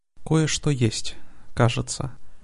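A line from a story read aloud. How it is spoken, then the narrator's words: Quiet. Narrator (Russian): негромко сказала Алиана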